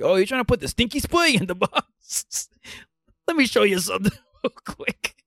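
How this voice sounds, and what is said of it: Weird put-on accent. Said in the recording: “You didn't even do a Southie accent. I don't get it. You just did a weird accent. ... It definitely wasn't a Florida accent.”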